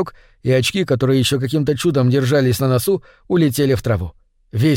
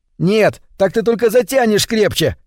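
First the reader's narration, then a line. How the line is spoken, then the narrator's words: Shouted. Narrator (Russian): крикнул я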